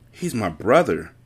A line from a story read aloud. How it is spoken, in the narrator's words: Carter whispered in turmoil